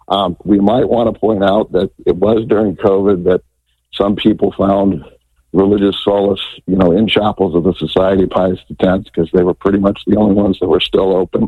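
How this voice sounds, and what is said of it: Hoarse, strained voice. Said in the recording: “I'm losing my voice here.”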